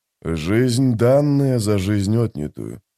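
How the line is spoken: Muttered. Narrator (Russian): пробормотал Маппо

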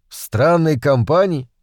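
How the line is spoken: Rude interruption. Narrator (Russian): грубо перебил я ее

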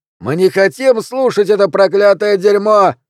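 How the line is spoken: Yelling. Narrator (Russian): вопил мужчина

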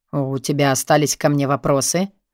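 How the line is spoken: Low gruff voice. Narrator (Russian): спрашивает Борис Александрович низким грубоватым голосом

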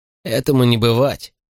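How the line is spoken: Scornful snort. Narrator (Russian): фыркнул Морли

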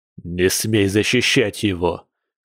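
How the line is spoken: Man gritting, breathing hard. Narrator (Russian): процедил мужчина, с трудом дыша

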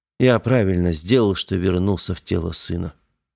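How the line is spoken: Whispered. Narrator (Russian): прошептал Веснин

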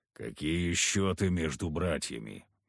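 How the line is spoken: Grumble. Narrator (Russian): буркнул Харисим

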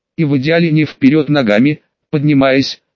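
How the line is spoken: Grumbled. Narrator (Russian): буркнул Валстерн

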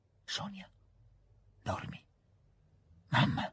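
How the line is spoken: Murmured. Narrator (Italian): mormorò

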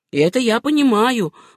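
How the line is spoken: Exclaimed. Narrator (Russian): воскликнул Спенсер

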